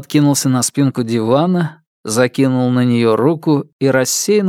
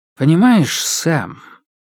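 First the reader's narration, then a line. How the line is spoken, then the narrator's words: Confiding tone. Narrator (Russian): начал доверительным тоном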